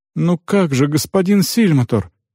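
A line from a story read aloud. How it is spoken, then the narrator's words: Exclamation. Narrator (Russian): воскликнула она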